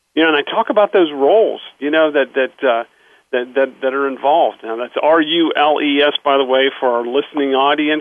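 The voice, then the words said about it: Slight Pittsburgh accent. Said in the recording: “I grew up in Pittsburgh, so I do have a little accent.”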